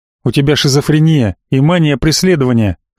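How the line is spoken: Snorting scoff. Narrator (Russian): хмыкнул я

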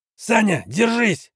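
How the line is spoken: Shouted out. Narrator (Russian): выкрикнул Герман

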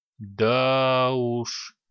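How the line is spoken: Drawling. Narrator (Russian): протянул глава тайной стражи

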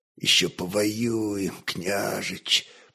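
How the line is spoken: Hoarse wheeze. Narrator (Russian): прохрипел он

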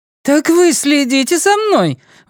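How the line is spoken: Indignant question, smiling. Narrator (Russian): возмущённо спросила Сюзанна голосом Детты, но улыбаясь

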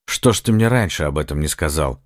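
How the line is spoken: Sharp question. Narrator (Russian): резко спросил Сальватор

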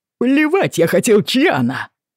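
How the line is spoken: Shouting. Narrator (Russian): орал Говард

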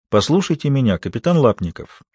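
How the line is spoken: Calm, distinct. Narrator (Russian): спокойно и отчетливо произнесла она

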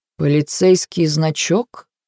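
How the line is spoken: Quiet speech. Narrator (Russian): проговорил он негромко

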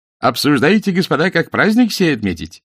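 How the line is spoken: Cheerful question. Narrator (Russian): весело спросил он

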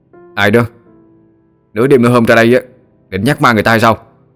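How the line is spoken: Loud question. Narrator (Vietnamese): Nó lớn tiếng hỏi

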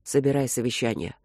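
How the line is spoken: Hoarse command. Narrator (Russian): хрипло приказал он

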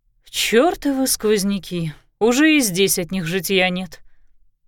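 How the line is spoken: Grumbling. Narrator (Russian): проворчала

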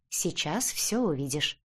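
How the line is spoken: Calm answer. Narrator (Russian): спокойно ответил Олег

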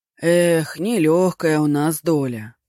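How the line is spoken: Sighing. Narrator (Russian): вздохнул стражник

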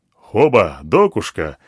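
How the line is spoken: Joyful elephant. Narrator (Russian): радостно сказал слон

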